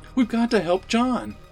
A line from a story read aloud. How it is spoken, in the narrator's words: Jenny cried